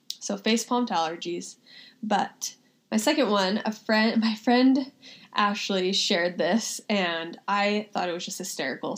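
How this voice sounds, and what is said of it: Nasal, congested voice. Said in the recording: “hay fever and allergies are crazy right now ... I'm sorry if I sound so nasally.”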